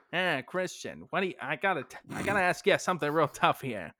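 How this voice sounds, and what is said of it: Old-time 1950s film director voice. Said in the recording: “in my best 1950s like director voice ... I gradually shifted out of the accent”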